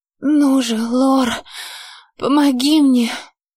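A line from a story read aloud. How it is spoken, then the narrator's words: Desperate, helpless moan. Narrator (Russian): Простонала почти с отчаянием и какой-то беззащитностью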